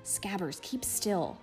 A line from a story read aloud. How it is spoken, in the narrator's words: Ron hissed